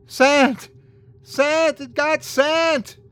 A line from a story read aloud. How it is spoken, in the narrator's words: I started screaming